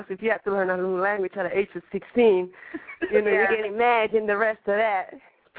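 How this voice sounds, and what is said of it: Mixed Spanish-French accented English. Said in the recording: “I have this crazy accent”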